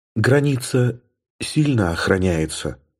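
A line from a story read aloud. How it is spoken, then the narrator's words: Whisper. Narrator (Russian): прошептала она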